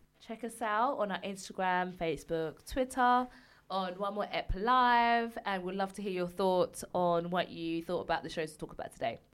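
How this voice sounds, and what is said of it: Hoarse, worn-out voice. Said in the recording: “Oh, my voice is gone.”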